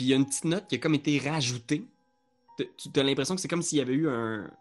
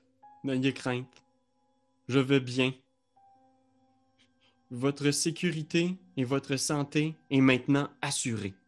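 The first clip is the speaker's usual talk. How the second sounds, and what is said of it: Puts on a character's voice. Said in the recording (French): “prendre la voix de Darwin”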